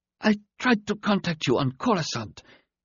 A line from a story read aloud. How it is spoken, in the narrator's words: the black-eyed alien began in a weak voice